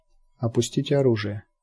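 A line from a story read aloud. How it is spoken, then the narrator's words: Quiet command. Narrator (Russian): негромко приказал Ротанов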